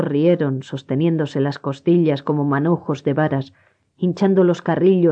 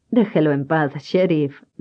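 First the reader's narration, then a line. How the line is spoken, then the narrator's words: Laughing. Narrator (Spanish): rió Jamie McHugh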